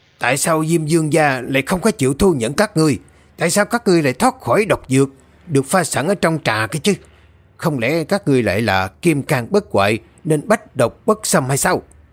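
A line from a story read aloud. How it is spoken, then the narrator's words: Harsh gritted question. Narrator (Vietnamese): Tên quỷ đầu to gằn giọng hỏi các vị đạo sư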